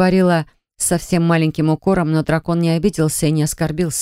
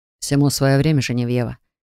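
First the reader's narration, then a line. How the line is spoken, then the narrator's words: Perfectly calm. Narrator (Russian): сказал он совершенно спокойно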